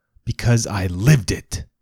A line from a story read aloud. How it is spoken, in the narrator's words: Father hisses